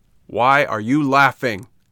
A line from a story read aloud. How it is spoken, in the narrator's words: asked Pinocchio in an angry voice